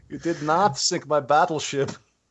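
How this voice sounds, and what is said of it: Imitates another person's voice. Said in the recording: “Tommy Wiseau or whatever as death... like, what accent is that?”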